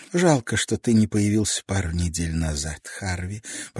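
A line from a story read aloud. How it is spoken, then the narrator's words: Whisper. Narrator (Russian): прошептала она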